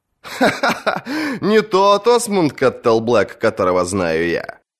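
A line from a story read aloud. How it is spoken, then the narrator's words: Laughing. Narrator (Russian): засмеялся Джейми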